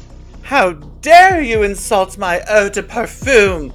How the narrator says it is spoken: Betty Lou shrieked

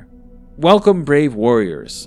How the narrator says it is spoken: I called out, surprised by my own brashness

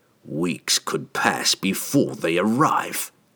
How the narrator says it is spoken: Trevi spat

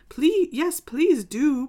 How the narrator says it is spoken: pleaded Alice

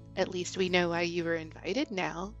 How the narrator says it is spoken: she murmured quietly in his ear

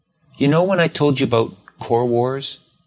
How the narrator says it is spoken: She asks brightly

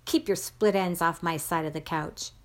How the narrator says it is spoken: snarled

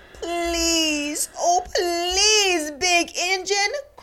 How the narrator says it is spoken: cried the dolls and the toys together

